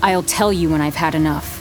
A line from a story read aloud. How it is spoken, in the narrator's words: say sharply